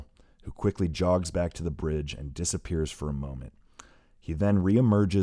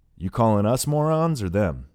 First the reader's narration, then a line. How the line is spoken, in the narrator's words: Hayduke asks with a chuckle